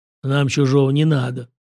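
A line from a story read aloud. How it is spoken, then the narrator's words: Grumbling. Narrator (Russian): проворчал он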